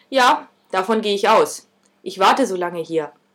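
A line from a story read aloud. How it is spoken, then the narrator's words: Sarcastic reply. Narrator (German): antwortete der Schneemann sarkastisch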